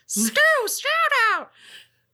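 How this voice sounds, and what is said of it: High-pitched put-on voice. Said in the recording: “did my high voice”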